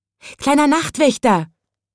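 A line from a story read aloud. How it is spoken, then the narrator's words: Calling out. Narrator (German): rief es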